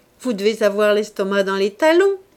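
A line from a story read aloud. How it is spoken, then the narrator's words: Cheerful. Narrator (French): lui dit-il gaiement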